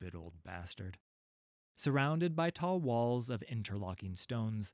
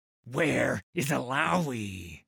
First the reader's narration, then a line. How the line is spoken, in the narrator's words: bellowed